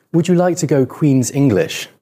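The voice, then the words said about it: Put-on British accent. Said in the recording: “I can put on a British accent ... I thought it was pretty good though”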